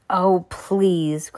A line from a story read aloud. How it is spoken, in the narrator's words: cried Mr